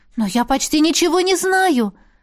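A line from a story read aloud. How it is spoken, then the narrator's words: Bewildered exclamation. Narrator (Russian): недоуменно воскликнула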